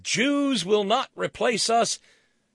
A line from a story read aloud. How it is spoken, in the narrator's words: Rick Wiles and the Nazis and the skinheads and the white nationalists and the Proud Boys and those sick bastards, they can scream